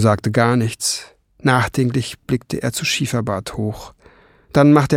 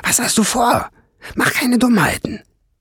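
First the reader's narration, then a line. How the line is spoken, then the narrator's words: Frightened hiss. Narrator (German): zischte Schwefelfell erschrocken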